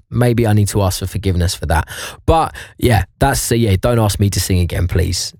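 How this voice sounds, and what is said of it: Slightly hoarse, strained voice. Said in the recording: “I've lost my voice a little bit yesterday with the football”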